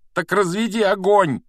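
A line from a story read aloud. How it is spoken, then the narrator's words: Breathless shout. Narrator (Russian): крикнул Гарри, задыхаясь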